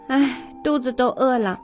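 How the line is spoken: Sighing. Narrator (Chinese): 老虎妈妈叹了一口气说

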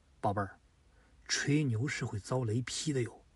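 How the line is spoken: Helpless whisper. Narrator (Chinese): 鲁肃是一脸无奈，悄声的对诸葛亮说

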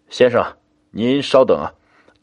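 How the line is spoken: Smiling. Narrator (Chinese): 他就笑道

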